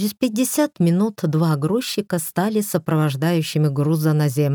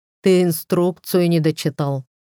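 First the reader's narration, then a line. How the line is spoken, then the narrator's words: Chuckle. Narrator (Russian): хохотнул в ответ Дарлю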